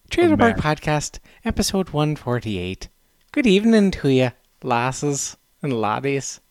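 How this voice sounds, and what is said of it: Put-on Irish accent. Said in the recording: “do the podcast with an Irish accent”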